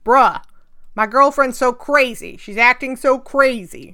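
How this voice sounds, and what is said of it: Put-on unidentified accent. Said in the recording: “I don't know what this accent is, but I'm doing it.”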